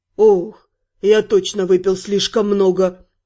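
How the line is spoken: Weary statement. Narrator (Russian): Констатировал, устало

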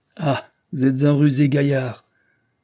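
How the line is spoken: Nonchalant exclamation. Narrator (French): s'écria-t-il avec nonchalance

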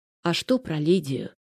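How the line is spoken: Sighing. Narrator (Russian): вздохнул Маслаков

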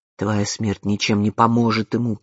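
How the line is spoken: Growl. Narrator (Russian): прорычал он

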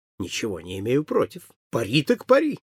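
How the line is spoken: Cheerful exclamation. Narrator (Russian): весело воскликнул Холмс

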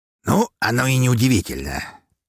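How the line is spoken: Pleased smirking grunt. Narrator (Russian): с довольной улыбкой хмыкнул граф

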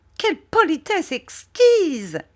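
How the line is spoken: Exclaimed. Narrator (French): s'écria Miss Murdstone

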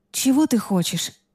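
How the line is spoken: Breathy exhale. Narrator (Russian): выдохнула я

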